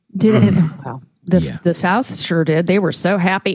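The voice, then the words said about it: Put-on Southern American accent. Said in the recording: “as you dip into your Southern accent.”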